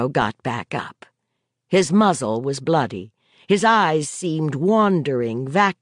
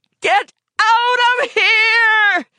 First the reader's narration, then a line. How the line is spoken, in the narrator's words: she screamed at it